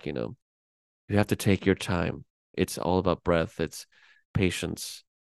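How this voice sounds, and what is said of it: Michael Fassbender impression. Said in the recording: “that's a good Fassbender impression, by the way. That was good. That was a good voice.”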